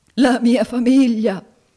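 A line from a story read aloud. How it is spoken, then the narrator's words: Sobbing. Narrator (Italian): singhiozzò il signor Squeers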